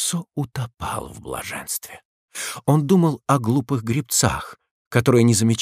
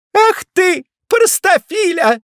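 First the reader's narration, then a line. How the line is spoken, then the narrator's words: Teasing playful shout. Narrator (Russian): прервала пение и, посылая ему рукой воздушный поцелуй, крикнула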